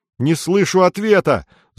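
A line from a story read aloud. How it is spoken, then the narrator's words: Angry. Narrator (Russian): зло говорит Саша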